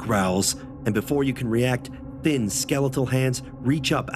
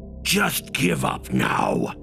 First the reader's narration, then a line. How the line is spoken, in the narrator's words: he hisses